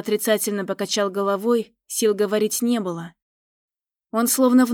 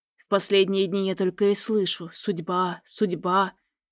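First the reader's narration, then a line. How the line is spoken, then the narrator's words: Hoarse. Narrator (Russian): хрипло проговорил Идар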